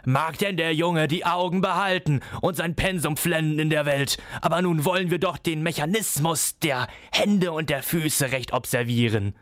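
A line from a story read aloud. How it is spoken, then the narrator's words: Shrill laugh, calling. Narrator (German): Coppelius lachte grell auf und rief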